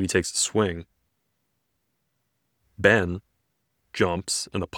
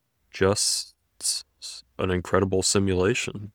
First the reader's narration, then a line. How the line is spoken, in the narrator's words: Spidey mutters, amazed